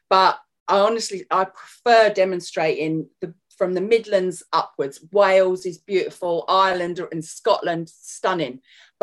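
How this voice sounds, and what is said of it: North London English accent. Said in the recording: “obviously you can hear my accent. I am from North London”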